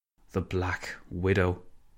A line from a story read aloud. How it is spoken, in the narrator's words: Cameron sighed